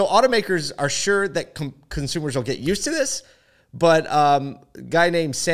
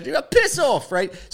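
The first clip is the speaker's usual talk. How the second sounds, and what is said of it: Mock British accent. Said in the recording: “It's got to have a British accent.”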